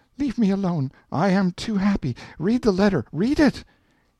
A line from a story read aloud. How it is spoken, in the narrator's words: she cried out